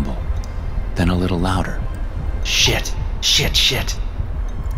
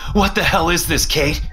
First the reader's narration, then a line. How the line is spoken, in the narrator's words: I shout at her